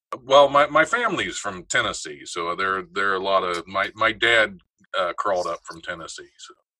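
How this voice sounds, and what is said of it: Slight regional accent. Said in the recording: “you have a little accent”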